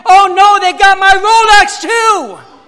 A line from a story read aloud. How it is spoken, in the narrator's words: The man frantically started screaming again